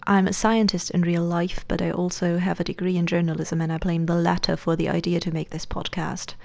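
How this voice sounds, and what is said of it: Fluctuating non-native English accent. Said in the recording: “my weird fluctuating accent ... I'm not a native speaker”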